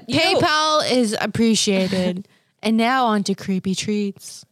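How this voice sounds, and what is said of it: Announcer-style radio voice. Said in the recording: “my radio voice is fly”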